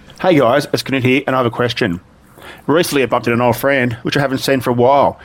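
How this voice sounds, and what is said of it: Fast speech with a foreign accent. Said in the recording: “talks at that speed, and he's got an accent”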